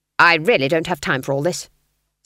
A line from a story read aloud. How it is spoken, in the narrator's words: snapped Granny, trembling